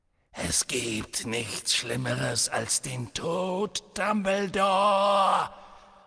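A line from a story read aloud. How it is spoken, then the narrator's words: Hissing. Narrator (German): fauchte Voldemort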